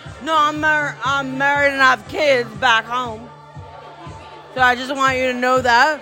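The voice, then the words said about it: Poor put-on Alabama accent. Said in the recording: “Your Alabama accent is terrible.”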